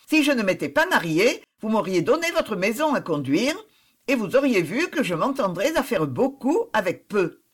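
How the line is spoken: Cheerful reply. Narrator (French): répondit Suzanne gaiement

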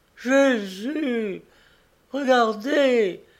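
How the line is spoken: Woman exclaiming. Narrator (French): s'écriait-elle

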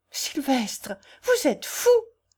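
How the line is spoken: Crying out, beside herself. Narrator (French): s'écria Félicie hors d'elle-même

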